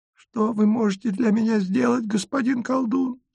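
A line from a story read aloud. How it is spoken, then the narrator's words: Thin little voice. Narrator (Russian): спрашивает она тоненьким голоском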